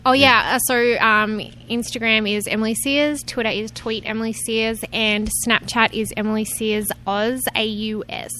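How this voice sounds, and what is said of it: Strong Australian accent. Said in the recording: “I know my accent's crazy”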